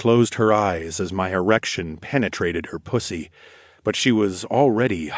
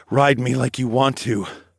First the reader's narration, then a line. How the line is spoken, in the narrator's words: I moaned